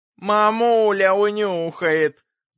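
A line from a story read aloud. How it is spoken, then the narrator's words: Thin squeaky boy's voice. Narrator (Russian): пропищал тонким голосом самый младший из картежников, 10-летний мальчишка по фамилии Бубнов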